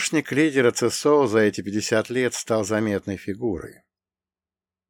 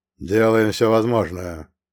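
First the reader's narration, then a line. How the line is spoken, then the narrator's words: Dry, curt reply. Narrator (Russian): сухо ответил Гром, явно не желая продолжать эту тему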